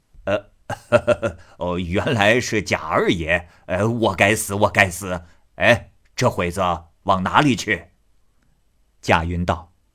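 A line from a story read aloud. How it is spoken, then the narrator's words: Drunken laughing. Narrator (Chinese): 倪二……醉眼……趔趄着笑道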